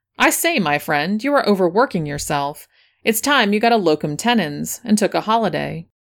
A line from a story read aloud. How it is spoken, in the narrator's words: as he burst into a hearty laugh, exclaimed